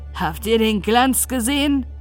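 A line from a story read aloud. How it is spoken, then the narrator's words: Exclaimed. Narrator (German): rief aus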